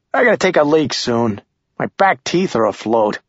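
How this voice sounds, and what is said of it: Sharp Yankee accent. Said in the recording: “that sharp Yankee accent”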